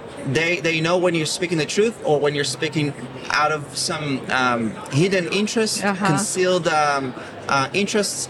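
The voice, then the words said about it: Israeli-accented English. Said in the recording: “I'm Israeli with my accent because it's not American”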